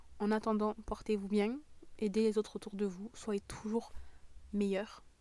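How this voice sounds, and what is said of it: Southern French accent. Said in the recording (French): “mon accent du sud est vraiment en train de revenir”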